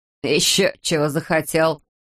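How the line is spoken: Snort. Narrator (Russian): фыркнул стриженый

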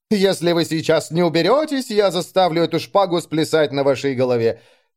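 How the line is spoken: Sudden shout. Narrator (Russian): как закричит

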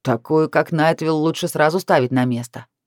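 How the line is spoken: Hostile snort. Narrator (Russian): неприязненно хмыкнул Джен

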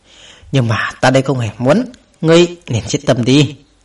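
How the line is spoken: Sigh, then soft. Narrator (Vietnamese): Cao Cường thở dài một hơi, sau đó khẽ nói

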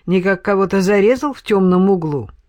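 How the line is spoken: Mocking question. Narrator (Russian): насмешливо поинтересовался менестрель

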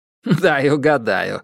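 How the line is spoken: Laughing. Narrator (Russian): рассмеялся Терри

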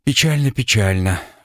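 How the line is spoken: Sigh. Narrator (Russian): вздохнул я

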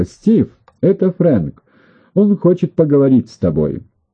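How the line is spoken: Shouting. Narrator (Russian): крикнула

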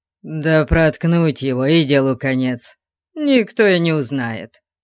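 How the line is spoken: Muttered. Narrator (Russian): один пробурчал

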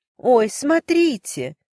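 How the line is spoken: Feigned exclamation. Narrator (Russian): наигранно воскликнула миссис Кардис

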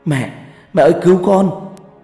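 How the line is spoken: Terrified scream. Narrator (Vietnamese): Quá sợ hãi, tôi hét lên

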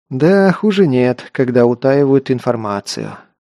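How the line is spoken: Sighed. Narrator (Russian): вздохнул

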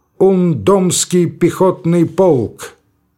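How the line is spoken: Loud shout after coughing. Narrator (Russian): откашлявшись, он громко крикнул

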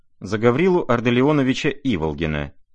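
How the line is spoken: Sharp, firm, clear. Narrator (Russian): продолжала Настасья Филипповна, по-прежнему резко, твердо и четко

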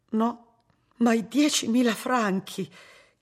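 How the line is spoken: Sisters asking, gasping, horrified. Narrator (Italian): chiesero le sorelle ansimando inorridite

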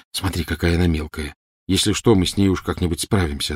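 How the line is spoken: Plain. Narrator (Russian): ответил Гарри

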